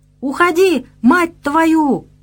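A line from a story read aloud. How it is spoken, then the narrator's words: Louder yelling. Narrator (Russian): еще громче заорал убийца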